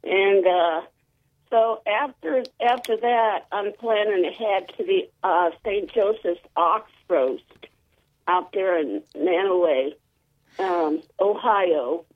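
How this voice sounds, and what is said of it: Voice sounds a little off. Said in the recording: “my voice sounds a little funny. I think it's because of the smoke. ... My voice is a little funny today.”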